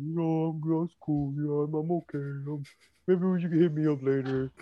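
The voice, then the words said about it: Impression of friend, strained voice. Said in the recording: “that's my Rob impression ... Because all the protein shakes that he has, you know. Like, it messes up the vocal cord.”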